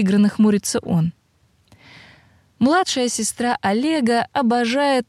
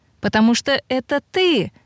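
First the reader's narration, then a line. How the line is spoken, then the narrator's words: Joyful explanation. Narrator (Russian): радостно поясняет Юля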